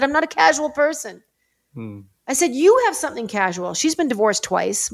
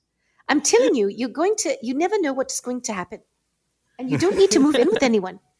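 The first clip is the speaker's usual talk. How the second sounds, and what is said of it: Poor put-on South African accent. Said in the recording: “I am massacring the South African accent.”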